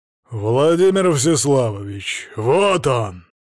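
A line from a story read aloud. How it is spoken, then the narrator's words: Growling. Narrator (Russian): Рычащим голосом Горыня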